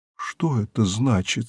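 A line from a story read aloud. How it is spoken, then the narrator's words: Very quiet question. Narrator (Russian): спросил таким тихим голосом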